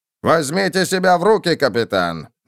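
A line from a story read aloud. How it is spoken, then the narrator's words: Barking. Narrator (Russian): рявкнул он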